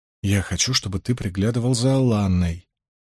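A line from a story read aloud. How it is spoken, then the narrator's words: Whisper in ear. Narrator (Russian): прошептал ему на ухо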